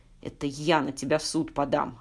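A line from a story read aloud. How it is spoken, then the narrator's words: Growled. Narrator (Russian): рычал Степан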